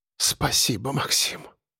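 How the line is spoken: Breathless whisper. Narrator (Russian): прошептала Яна, едва переводя дыхание

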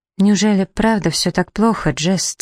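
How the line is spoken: Quiet question. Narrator (Russian): тихо спросила Флёр

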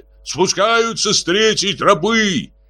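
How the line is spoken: Shouted from above. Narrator (Russian): с дерева крикнули

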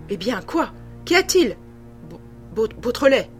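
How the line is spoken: Stammering. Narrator (French): balbutia M

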